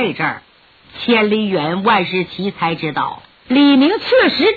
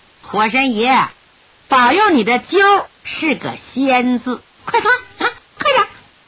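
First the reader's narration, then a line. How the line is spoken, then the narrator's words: Cheerful chuckling. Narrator (Chinese): 笑呵呵地说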